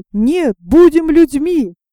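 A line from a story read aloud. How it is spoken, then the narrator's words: Parrot shouting. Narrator (Russian): попугай закричал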